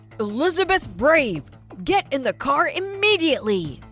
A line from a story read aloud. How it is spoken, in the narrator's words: He shouted